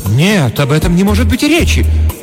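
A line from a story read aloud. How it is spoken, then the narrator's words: Dramatic woman's exclamation. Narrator (Russian): патетически воскликнула хозяйка дома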